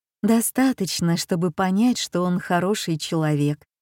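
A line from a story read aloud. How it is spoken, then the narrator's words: Soothing whisper, mother. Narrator (Russian): успокаивающе прошептала мама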